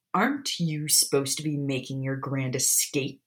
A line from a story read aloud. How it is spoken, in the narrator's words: Sirius snapped